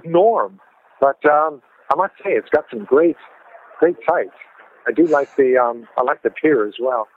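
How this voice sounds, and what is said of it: North American Vancouver accent. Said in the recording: “you're obviously not British, are you? ... my North American accent ... I grew up in Vancouver, and the accent has stuck ... I still sound like a Vancouverite”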